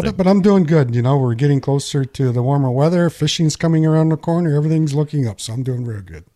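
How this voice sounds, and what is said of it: Congested, stuffy voice. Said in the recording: “you can tell by my voice, it started already”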